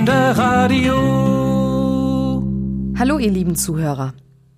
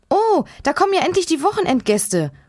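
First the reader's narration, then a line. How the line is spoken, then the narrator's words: Excited call. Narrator (German): ruft Hanna aufgeregt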